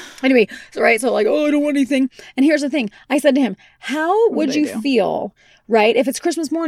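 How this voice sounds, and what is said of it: Usual voice. Nothing is said of it.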